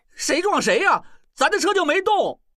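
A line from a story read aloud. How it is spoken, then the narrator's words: Shouting. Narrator (Chinese): 小栓边喊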